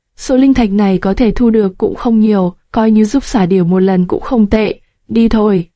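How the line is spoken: Resigned sigh. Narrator (Vietnamese): Lữ Thiếu Khanh bất đắc dĩ thở dài

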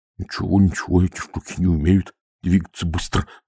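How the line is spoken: Muttering. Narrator (Russian): бормотал

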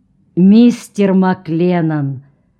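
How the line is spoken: Solemn, stern voice. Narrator (Russian): голос капитана Бартлетта зазвучал торжественно и строго

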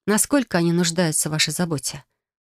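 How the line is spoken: Soft. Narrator (Russian): уточнил я мягко

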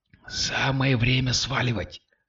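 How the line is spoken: Whispered. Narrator (Russian): шепнул Кирилл

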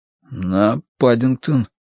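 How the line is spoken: Hoarse panicked forced out. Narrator (Russian): выдавил Дануорти осипшим от паники голосом

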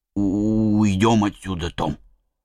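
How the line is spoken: Trembling voice. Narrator (Russian): сказал дрожащим голосом

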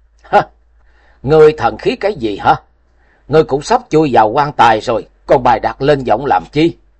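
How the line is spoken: Loud mocking laughter. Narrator (Vietnamese): Lý Kiếm Minh sững người giây lát rồi ngửa mặt cười lớn

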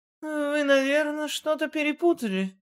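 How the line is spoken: Slightly bewildered. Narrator (Russian): немного растерянно произнесла Лена

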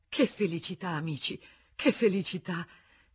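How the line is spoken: Panting with tired joy. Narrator (Italian): tanto ansimava di stanchezza e di gioia

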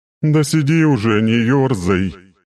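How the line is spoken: Grumbling. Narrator (Russian): проворчала Виверна

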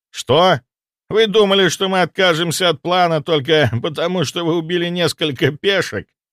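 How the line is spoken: Laughing. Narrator (Russian): Морозов рассмеялся

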